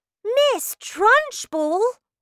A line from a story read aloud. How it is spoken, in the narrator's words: Matilda cried